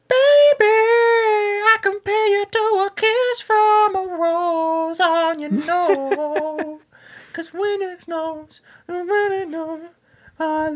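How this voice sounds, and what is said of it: Imitates a singer's voice, singing. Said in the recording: “my Seal impression”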